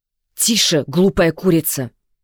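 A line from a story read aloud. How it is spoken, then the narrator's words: Hissing. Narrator (Russian): зашипела Агата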